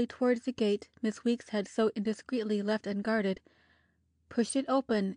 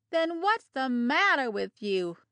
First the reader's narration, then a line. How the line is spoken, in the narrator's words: called out a burly, high-strung woman